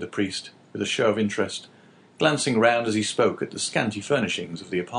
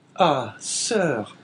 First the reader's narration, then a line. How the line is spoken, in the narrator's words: said Caderousse with a sigh